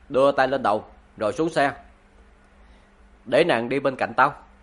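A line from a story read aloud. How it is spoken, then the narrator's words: Cold voice. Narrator (Vietnamese): thanh âm lạnh lùng nói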